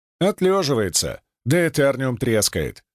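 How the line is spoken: Smirking. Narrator (Russian): хмыкнул я

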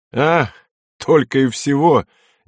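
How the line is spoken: Nervous laugh. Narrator (Russian): нервно рассмеялся лейтенант

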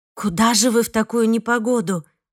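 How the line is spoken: Pleading. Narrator (Russian): взмолилась я

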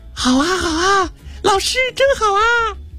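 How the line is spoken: Children shouting together. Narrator (Chinese): 孩子们也跟着怪老师一起叫了起来

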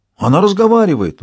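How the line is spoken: Surprised exclamation. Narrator (Russian): удивленно воскликнул Шут

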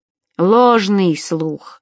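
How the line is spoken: Grumbling. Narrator (Russian): проворчал Иудей

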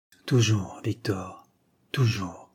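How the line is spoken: Amused murmur. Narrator (French): murmura avec un sourire amusé

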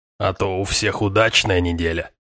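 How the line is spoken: Grumbling. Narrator (Russian): проворчал оракул

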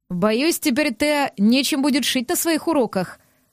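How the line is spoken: Laughing. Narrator (Russian): рассмеялся Аллар

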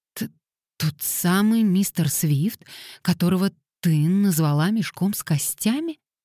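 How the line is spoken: Slightly stammering. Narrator (Russian): чуть заикаясь спросила Эви

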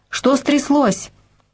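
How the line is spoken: Shouting. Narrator (Russian): закричал

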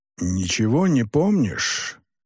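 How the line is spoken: Furious hiss in ear. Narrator (Russian): яростно прошипел он прямо в ухо Дудзияна

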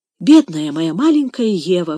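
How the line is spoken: Exclaiming. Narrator (Russian): воскликнул Сен-Клер

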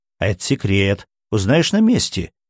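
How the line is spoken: Intriguing announcement. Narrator (Russian): интригующим голосом объявил Виктор

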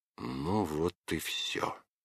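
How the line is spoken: Through clenched teeth. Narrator (Russian): сквозь зубы сказал Иван

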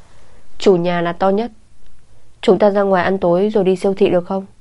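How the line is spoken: Conciliatory. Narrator (Vietnamese): Phương Minh Trung cất giọng làm hòa

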